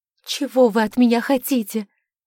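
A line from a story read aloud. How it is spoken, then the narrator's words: Hysterical shouting. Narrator (Russian): Срываясь на истерику, закричала она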